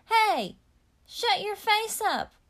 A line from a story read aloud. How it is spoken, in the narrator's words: hollered